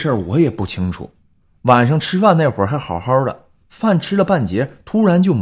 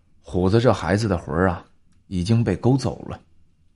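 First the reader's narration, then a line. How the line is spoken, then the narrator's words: Old woman, low voice. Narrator (Chinese): 老太太沉声说道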